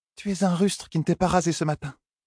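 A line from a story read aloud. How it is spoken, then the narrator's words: Murmured, muffled against shirt. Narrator (French): murmura Elaine contre la chemise de son compagnon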